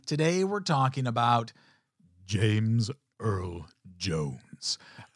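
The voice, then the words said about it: Poor James Earl Jones impression. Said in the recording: “That's a horrible, but my best impression of anything that would come out of James Earl Jones's mouth”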